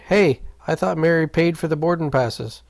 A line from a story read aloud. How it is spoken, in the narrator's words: Steve tried to shout calmly